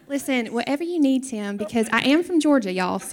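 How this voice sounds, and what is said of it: Southern belle accent. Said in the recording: “She's going to give the rest of this in Southern Belle accent.”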